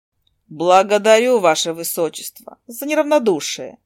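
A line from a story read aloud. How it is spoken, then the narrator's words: Dry, cold speech. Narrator (Russian): Все так же сухо проговорила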